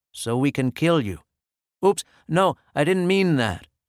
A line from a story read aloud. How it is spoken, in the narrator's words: I quickly added, not wanting to panic the animal